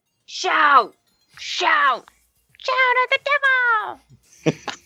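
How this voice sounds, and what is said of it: Shouting a song line. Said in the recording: “shouting ... Everyone's shouting it.”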